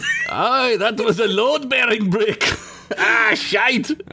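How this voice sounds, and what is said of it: Put-on Scottish accent. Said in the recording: “That was a better Scottish accent than the groundskeeper's accent”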